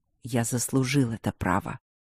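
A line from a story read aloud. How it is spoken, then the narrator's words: Quiet growl. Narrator (Russian): тихо прорычал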